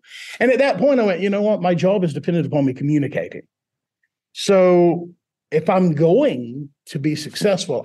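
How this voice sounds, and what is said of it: Unplaceable non-local sounding accent. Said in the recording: “the accent's really, it's a speech impediment. It's in the ear of the listener... so where's he from? He's not from around here.”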